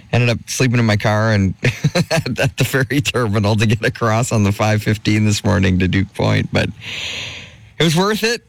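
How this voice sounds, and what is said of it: Hoarse, slightly strained voice. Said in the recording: “Still recuperating, as you might be able to hear, my voice is a little hoarse.”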